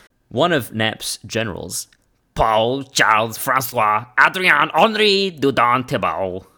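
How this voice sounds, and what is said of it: Put-on French accent. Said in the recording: “do it in your absolute best French accent”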